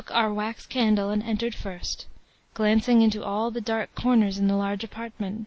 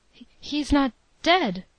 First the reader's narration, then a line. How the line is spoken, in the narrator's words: I stammered out